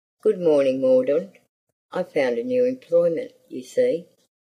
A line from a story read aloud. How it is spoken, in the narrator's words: said in his harsh voice